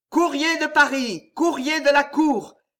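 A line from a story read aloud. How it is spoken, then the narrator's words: Shout from outside. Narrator (French): cria une voix au dehors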